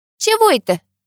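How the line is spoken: Offended. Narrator (Russian): обиженно поджала губы

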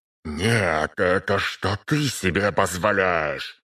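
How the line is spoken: Hissed reply, man. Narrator (Russian): зашипел в ответ мужчина

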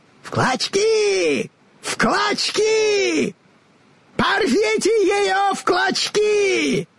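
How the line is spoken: Sorceress shrieking after someone. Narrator (Russian): Визжала волшебница вдогонку

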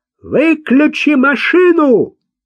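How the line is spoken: Shout. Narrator (Russian): крикнул он

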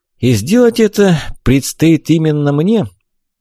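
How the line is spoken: Weary, resigned guess. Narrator (Russian): устало предположил, уже зная ответ

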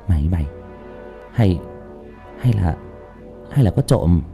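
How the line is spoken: Whisper. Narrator (Vietnamese): Tôi thì thầm với thằng Tuấn Anh

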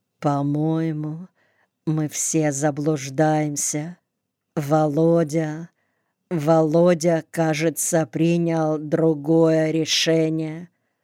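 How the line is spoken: Quiet but very distinct. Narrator (Russian): сказала тихо, но очень отчетливо

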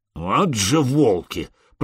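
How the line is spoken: Grumbled. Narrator (Russian): проворчал Простен

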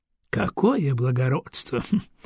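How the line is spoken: Scoffing snort. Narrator (Russian): хмыкнул

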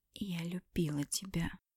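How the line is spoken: Whisper, suddenly hoarse voice. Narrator (Russian): прошептала я внезапно севшим голосом

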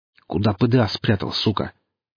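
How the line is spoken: Rough question. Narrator (Russian): грубо спросил Гриф

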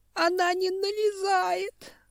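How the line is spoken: Sobbing reply. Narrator (Russian): ответила ветка и опять всхлипнула

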